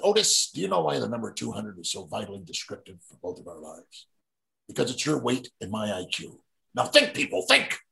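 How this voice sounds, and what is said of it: Gene Hackman impression from Superman. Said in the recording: “my impersonation of him from Superman ... I did a better impersonation at the time”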